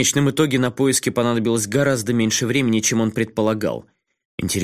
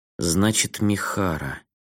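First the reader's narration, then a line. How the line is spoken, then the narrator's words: Muttered under breath. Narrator (Russian): пробормотала Сакава себе под нос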